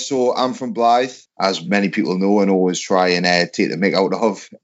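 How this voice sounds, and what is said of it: Northeast English accent. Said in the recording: “through your accent, a northeastern lad”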